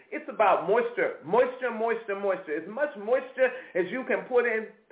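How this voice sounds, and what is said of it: Noticeable accent on 'moisture'. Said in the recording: “there goes that accent again”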